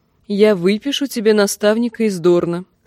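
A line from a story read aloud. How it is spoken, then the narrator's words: Plain. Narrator (Russian): сказала она сыну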